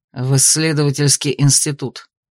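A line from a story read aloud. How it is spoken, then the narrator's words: Gruff mutter. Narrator (Russian): буркнул Аластер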